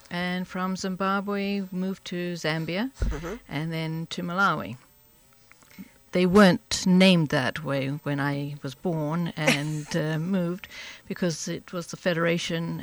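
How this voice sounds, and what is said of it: Distinctive accent. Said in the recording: “I love the accent, too. I'm sure everybody will be transfixed by the accent”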